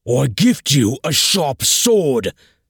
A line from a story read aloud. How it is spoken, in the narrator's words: screamed Ogmund at Thorgil's back